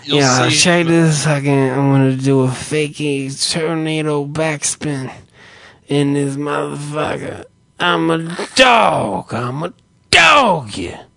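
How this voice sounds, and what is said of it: Imitates another person's voice. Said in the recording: “I don't even know what kind of fucking accent that is.”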